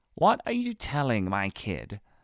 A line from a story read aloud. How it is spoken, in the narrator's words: asked with an awkward laugh